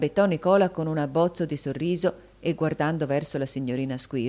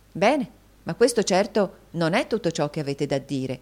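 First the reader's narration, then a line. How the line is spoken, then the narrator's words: Interrupting exclamation. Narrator (Italian): esclamò la signorina Price all'interruzione di Nicola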